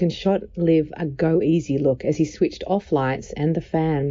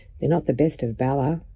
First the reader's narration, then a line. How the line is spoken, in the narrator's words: said softly